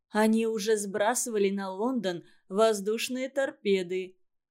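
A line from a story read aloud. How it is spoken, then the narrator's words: Droning low bass. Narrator (Russian): гудел кто-то оцаревшим баском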